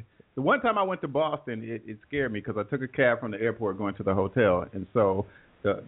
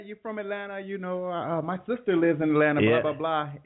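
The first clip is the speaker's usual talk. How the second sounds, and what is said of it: Deliberately poor put-on Indian accent. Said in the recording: “I got a terrible Indian accent, so now I'm going to try.”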